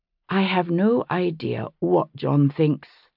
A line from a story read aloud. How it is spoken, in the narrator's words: I said evenly